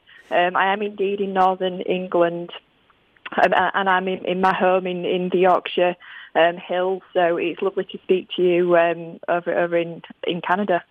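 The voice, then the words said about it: Yorkshire English accent. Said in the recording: “my very Yorkshire accent ... why is she sounding so weird”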